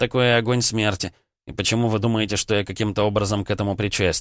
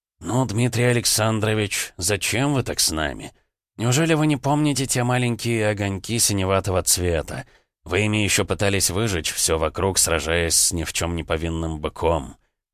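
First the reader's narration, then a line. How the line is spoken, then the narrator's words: Said softly. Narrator (Russian): мягко произнес Троицкий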